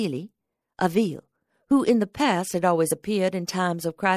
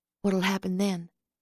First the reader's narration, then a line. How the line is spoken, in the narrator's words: I asked in a hushed voice